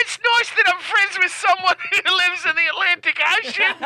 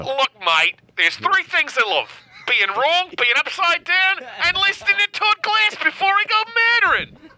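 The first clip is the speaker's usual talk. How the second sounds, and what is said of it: Put-on Australian accent. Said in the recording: “do an impersonation. Don't do it over the top... You can do an Australian accent... like a real, very believable accent... Do an impersonation of Andrew who listens to the show in Australia”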